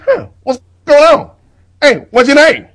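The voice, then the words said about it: Dave Chappelle impression. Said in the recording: “my limited Dave Chappelle impression ... It's not bad, actually.”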